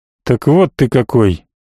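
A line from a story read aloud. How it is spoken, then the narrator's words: Quiet grumble. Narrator (Russian): негромко пробурчал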